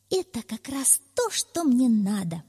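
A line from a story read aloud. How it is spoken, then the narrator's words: Exclaiming. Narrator (Russian): воскликнул он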